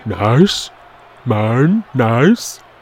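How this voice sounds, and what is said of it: Imitates another person's voice. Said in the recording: “my George Animal Steel impression.”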